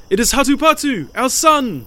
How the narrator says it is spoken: they cried

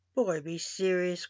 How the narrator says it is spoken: grumbled the king

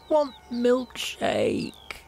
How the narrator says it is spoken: wailed

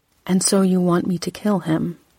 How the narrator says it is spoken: I said evenly

